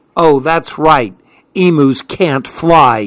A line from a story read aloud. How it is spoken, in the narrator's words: he snarled